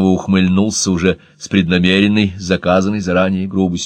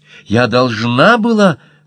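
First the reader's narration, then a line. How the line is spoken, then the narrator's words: Cried out. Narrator (Russian): выкрикнула Марта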